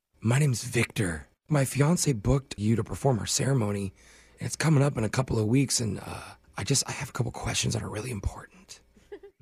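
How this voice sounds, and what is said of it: Whispering. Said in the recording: “is there a reason why you're whispering?”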